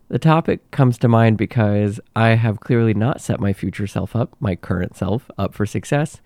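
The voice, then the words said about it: Nasal, congested sick voice. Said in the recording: “As you might tell from my voice, I am currently under the weather with something ... my nasally voice”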